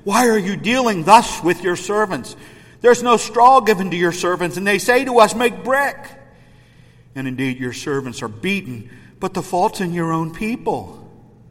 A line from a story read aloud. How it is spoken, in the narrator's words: Then the officers of the children of Israel came and cried out to Pharaoh, saying